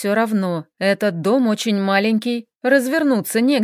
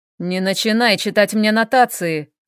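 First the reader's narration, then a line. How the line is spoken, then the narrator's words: Growled. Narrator (Russian): рыкнул Хел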